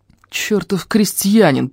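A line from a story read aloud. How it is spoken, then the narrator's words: Through gritted teeth. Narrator (Russian): процедил Лаум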